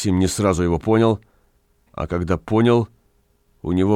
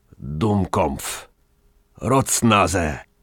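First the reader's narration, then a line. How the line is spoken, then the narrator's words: Hoarse. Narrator (Russian): странник сипло произнес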